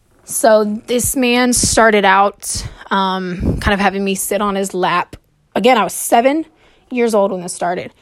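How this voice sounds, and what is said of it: Out of breath, nervous. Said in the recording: “I'm sure you can hear it. I'm out of breath. I'm kind of scared.”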